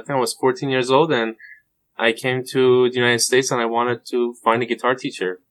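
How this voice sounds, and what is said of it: Persian accent, sounds slightly Spanish. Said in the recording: “your accent is interesting because the average person listening to it may think that you're from Spain or Mexico ... this is a Persian accent ... it does sound a little Spanish to me”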